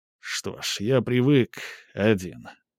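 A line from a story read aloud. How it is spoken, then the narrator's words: Muttered. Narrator (Russian): пробормотал он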